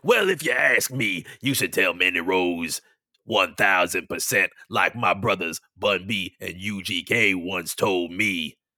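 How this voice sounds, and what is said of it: Imitates another person's voice. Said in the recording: “I'll even put it in my Booker T voice.”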